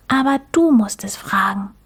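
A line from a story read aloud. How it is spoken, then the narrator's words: Whisper. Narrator (German): flüsterte Mucks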